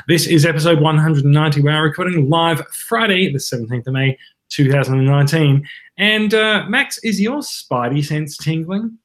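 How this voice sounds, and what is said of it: Australian accent. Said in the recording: “we like to speak in Australian accents”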